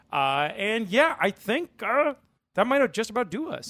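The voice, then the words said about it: Bad Kermit the Frog voice. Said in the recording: “You did a little Kermit the Frog there... that very bad Frogger impression”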